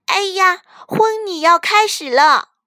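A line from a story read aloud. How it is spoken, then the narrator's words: Sudden loud cry. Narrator (Chinese): 突然，苏菲公主大叫起来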